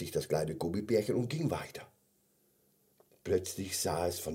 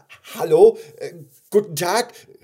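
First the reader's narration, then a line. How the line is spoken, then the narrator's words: Calling out. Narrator (German): rief es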